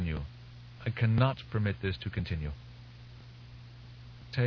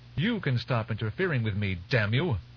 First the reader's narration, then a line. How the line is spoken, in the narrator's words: Lucilla snapped